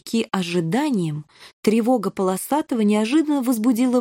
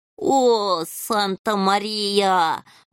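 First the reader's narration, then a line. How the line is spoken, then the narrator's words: Howling. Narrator (Russian): взвыл полосатый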